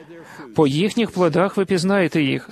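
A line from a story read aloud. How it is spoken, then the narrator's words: Plain. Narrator (Ukrainian): сказав Ісус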